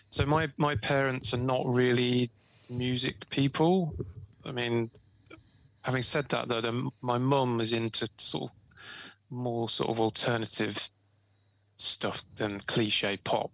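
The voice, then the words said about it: East Midlands English accent. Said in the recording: “there's a mid Midlands accent going on going there. ... Yeah, East Midlands accent.”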